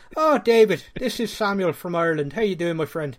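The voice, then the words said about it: Put-on Irish accent. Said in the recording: “I just thought I'd answer that one in an Irish accent.”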